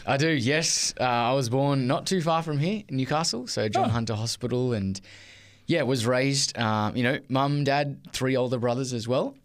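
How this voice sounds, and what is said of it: Australian accent. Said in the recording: “It sounds like you've got an Australian accent.”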